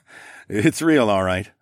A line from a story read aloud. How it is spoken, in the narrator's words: I chuckled